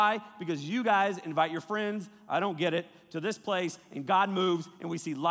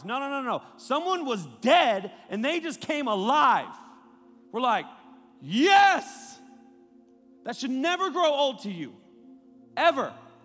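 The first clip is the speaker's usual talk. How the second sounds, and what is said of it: Yelling excitedly. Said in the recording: “Why are you yelling? ... it fires me up”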